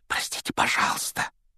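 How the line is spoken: Whisper. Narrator (Russian): прошептал Гарри

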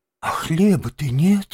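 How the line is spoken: Heavy sigh. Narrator (Russian): тяжко вздохнул крот

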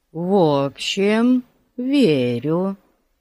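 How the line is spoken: Drawled. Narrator (Russian): протянул толстяк

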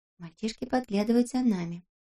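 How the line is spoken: Whisper. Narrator (Russian): прошептала Бритиане

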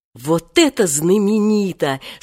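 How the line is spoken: Delighted admiration. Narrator (Russian): снова восхитился Женька

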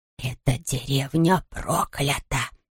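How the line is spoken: Woman's whisper. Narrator (Russian): прошептала женщина

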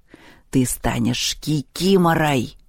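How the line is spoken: Hissing. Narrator (Russian): прошипел Перун

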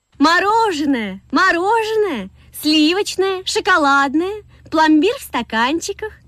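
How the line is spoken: Vendor calling, beautiful voice. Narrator (Russian): кричала продавщица красивым голосом

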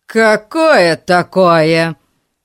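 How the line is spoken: Angry question. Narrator (Russian): зло спросил мистер Гун

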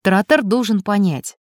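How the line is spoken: Calm. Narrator (Russian): спокойно произнес электроник

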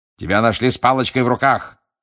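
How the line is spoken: Barked. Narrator (Russian): рявкнул мистер Диггери

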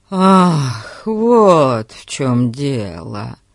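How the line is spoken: Relieved sigh. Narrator (Russian): Эрн облегченно вздохнул

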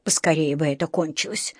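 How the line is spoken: Sighing. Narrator (Russian): вздохнула миссис Браун

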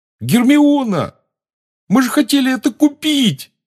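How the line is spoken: Yelling. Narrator (Russian): завопил Рон

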